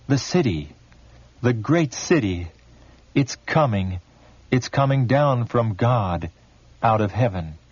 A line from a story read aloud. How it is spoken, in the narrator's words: We all cried out